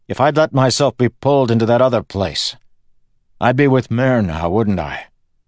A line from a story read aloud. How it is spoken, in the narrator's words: Kelsier said, loudly